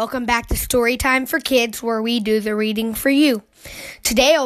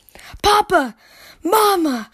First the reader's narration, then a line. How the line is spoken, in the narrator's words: gasped